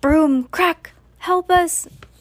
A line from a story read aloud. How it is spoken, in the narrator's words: cried Mrs